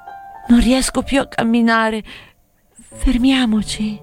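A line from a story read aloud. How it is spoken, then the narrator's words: Girl moaning, giving up. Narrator (Italian): come arrendendosi, la fanciulla gemette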